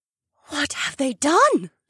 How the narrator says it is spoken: the she-wolf gasped

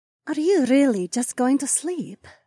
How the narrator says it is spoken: Imarla purred

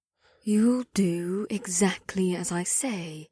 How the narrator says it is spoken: whispered in a cryptically low tone

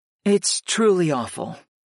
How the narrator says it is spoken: my aunt sighed

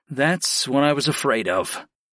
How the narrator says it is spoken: I sighed

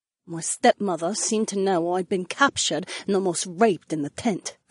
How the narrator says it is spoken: Sienna muttered

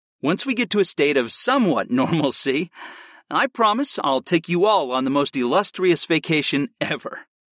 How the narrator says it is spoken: I chuckled

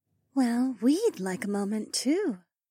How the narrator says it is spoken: Ravi whispered

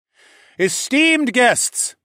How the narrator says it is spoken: I said in a loud and powerful voice

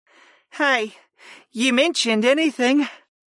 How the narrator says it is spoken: the petite summoner yawned

